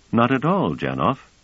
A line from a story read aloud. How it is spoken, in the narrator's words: said Trevise